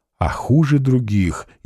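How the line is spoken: Hurried whisper. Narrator (Russian): еще торопливее зашептал Милославский

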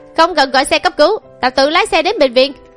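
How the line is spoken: Furious shout. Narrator (Vietnamese): Mạnh Thao đỏ mặt tía tai quát lên với Quách Thành Vũ

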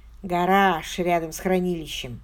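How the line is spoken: Relieved sigh. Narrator (Russian): облегченно вздохнул Ричи

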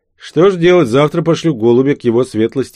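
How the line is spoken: Sighing. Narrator (Russian): вздохнул я

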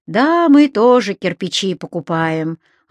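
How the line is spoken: Sighing. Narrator (Russian): вздохнул Павел

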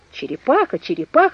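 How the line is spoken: Journalist exclaiming. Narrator (Russian): воскликнул журналист

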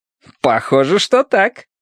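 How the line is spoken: Cheerful reply. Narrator (Russian): весело ответил Янь

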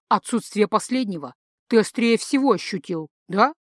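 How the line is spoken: Snort. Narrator (Russian): фыркнул перевертыш

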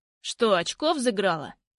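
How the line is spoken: Sharp question. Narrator (Russian): спрашивает резко

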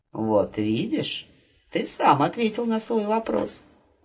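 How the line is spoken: Warm, smiling. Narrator (Russian): ласково улыбнулась она

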